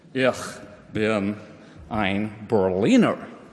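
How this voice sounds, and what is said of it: John F. Kennedy's Boston Brahmin accent. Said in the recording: “John F. Kennedy said when he visited with that wonderful Boston Brahmin German accent”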